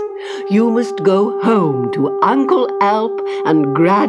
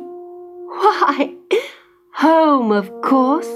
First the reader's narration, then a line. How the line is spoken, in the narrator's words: laughed Clara